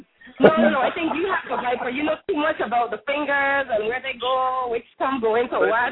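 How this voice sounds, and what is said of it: Virgin Islands accent. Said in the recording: “I hear accent, B. Where you calling from? ... I'm from the Virgin Islands.”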